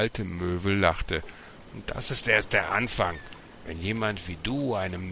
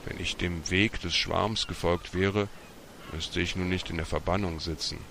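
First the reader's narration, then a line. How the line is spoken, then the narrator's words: Sad. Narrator (German): Martin sah traurig aufs Meer und sagte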